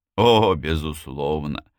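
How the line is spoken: Mocking. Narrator (Russian): насмешливо согласился он

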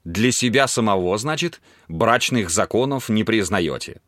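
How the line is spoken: Plain question. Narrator (Russian): спросил Дархиал

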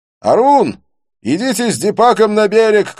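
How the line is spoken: Shouting. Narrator (Russian): кричал он

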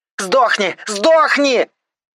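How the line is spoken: Screaming in strange voice. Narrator (Russian): орала не своим голосом

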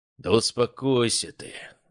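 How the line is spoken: Sigh. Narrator (Russian): вздохнул Шолохов

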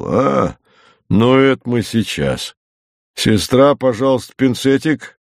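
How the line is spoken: Calm deep bass. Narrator (Russian): Пан доктор спокойно пробасил

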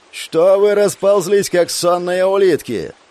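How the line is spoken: Shouted. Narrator (Russian): заорала Герда

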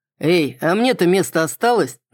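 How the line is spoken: Mocking question. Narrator (Russian): насмешливо спросил Кроу

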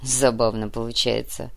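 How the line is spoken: Amused grunt. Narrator (Russian): хмыкнул Тат

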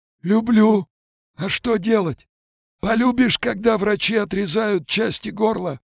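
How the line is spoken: Gurgling, hissing voice. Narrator (Russian): Слова клокотали и шипели

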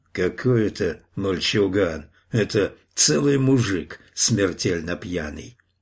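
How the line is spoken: Hoarse, rough, reluctant muttering. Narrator (Russian): Другой, сиплый и грубый, как бы нехотя, цедил слова сквозь зубы

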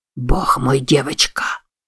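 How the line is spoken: Strained wheeze. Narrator (Russian): С трудом прохрипел он

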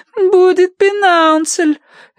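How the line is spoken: Whimpering. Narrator (Russian): хныкала Агнес

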